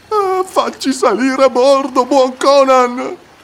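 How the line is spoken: Frightened whimpering. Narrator (Italian): piagnucolò uno zamorano, spaventata

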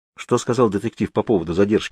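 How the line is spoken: Plain question. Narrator (Russian): спросил я

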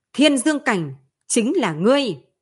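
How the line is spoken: Thunderous echoing shout. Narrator (Vietnamese): hướng đạo thân ảnh kia hét to như sấm, vang vọng đại điện

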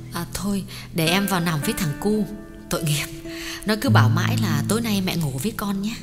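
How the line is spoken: Soft gentle. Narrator (Vietnamese): Thuyết nhỏ nhẹ bảo

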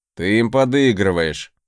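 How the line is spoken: Grumbling. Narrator (Russian): проворчал Сагар

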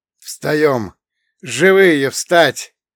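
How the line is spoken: Hoarse rasp. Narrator (Russian): прохрипела Эмма

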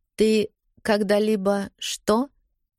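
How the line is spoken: Gentle prompting. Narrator (Russian): мягко напоминаю

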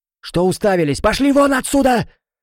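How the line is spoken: Angry yelling. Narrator (Russian): заорала Эржебет

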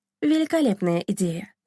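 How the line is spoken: Plain. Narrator (Russian): сказала Дарина

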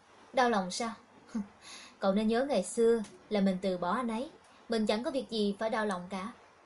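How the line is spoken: Smirking. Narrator (Vietnamese): Hạ Mạc nhếch môi mỉm cười

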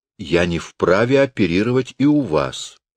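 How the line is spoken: Calm. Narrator (Russian): спокойно договорил Равик

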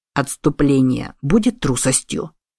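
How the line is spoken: Muttered. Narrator (Russian): пробормотал Куницуками

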